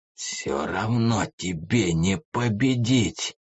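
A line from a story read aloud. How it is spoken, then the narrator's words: Hoarse wheeze. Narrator (Russian): прохрипел Прэк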